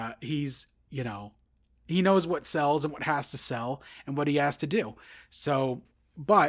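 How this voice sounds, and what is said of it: Usual voice. Nothing is said of it.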